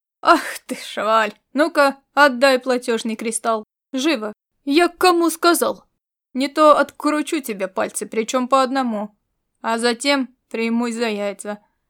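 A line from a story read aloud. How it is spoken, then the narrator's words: Good-natured deep bass. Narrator (Russian): добродушно пробасил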